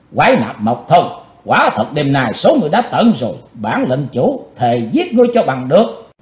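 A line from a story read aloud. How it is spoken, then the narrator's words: Hate-filled shout. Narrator (Vietnamese): Chàng thét với giọng căm thù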